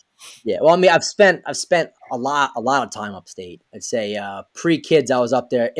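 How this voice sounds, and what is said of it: Mild regional accent. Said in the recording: “he's got an accent... I definitely have one. I'm told from my upstate family that it's not as thick as it should be from down here.”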